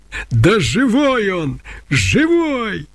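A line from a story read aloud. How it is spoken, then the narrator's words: Furious, elated shout. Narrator (Russian): крикнула она с яростным восторгом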